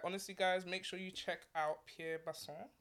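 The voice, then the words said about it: Little French accent on name. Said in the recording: “Did I get the little French accent?”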